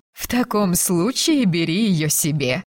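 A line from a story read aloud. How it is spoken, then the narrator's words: Laughing. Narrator (Russian): засмеялась Розамунда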